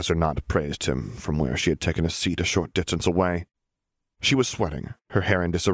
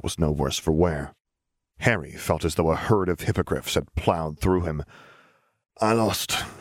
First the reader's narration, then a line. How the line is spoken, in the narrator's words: he wheezed